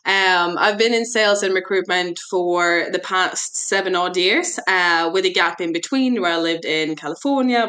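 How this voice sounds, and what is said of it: Mixed accent, sometimes sounds Irish. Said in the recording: “hence the mixed accent. Sometimes my team thinks I am Irish.”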